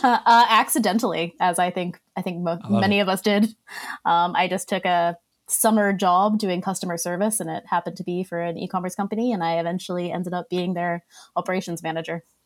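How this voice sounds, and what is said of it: Australian accent mixed with Boston. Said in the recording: “your accent's very weird in that it doesn't sound like Boston, but then there's some like little things in there... Boston mixed with Australian”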